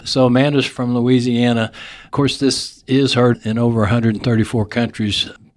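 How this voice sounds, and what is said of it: Texas accent. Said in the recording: “my Texas accent comes in”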